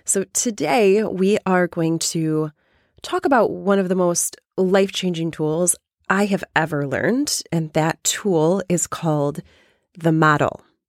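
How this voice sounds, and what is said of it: Weak, strained, nearly lost voice. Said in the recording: “my voice is almost gone”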